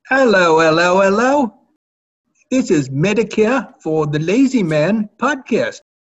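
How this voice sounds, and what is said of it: Faltering put-on English accent. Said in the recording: “It sounded like an English accent at first, and that kind of deteriorated. ... I should not practice my foreign accents on you.”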